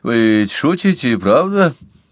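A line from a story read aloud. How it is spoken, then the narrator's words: Uncertain repetition. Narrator (Russian): неуверенно повторил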